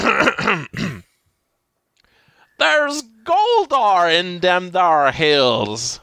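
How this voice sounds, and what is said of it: Old West prospector voice. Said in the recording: “do an impression of what an Old West prospector might say”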